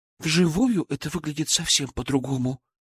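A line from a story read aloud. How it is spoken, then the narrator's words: Trembling voice. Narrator (Russian): дрожащим голосом произнесла Даша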